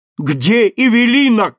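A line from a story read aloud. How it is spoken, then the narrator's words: Shout. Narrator (Russian): крикнул судья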